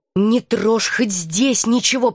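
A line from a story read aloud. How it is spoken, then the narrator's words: Hissing. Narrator (Russian): прошипела я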